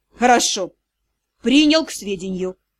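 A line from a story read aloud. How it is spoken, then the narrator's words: Icy tone. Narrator (Russian): ледяным тоном произнес Риан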